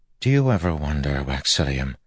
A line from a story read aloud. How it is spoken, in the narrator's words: Telson said softly